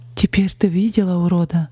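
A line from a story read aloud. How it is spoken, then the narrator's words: Trembling voice. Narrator (Russian): дрогнувшим голосом спросила Полина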